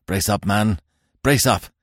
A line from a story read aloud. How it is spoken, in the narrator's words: cried, in his strenuous, grimly purposeful fashion